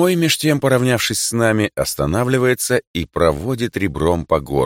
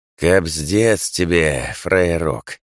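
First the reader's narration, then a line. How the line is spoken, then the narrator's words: Hoarse. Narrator (Russian): сипло говорит он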